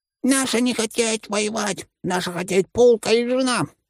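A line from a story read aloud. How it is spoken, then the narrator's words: Piercing shriek. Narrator (Russian): пронзительно завизжал один из них, высокий, тощий, как жердь, еще и одноглазый в придачу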